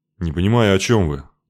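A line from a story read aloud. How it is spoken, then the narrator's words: Uninterested grumble, dead duke. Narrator (Russian): пробурчал мертвый герцог, которого вся эта высокая философия интересовала мало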